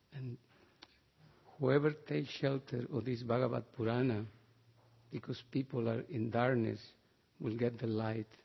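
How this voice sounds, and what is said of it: Strong accent. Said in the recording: “I have very strong accent”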